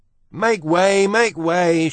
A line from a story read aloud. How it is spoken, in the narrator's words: shouted Furlow